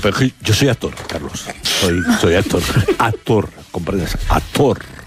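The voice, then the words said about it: Put-on theatrical actor voice. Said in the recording (Spanish): “¿Cómo está ahí la voz puesta? ... necesitas poner voz de actor para decir que eres actor”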